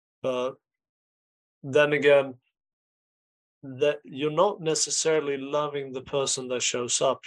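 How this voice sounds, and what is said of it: Accented speech, hard to understand. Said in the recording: “your beautiful accent, I couldn't understand it”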